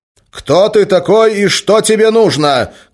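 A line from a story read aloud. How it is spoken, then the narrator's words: Shout. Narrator (Russian): крикнул Гессер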